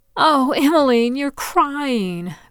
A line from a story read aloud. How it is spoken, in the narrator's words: Bess exclaimed